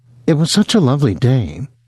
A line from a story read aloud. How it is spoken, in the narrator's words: almost stammered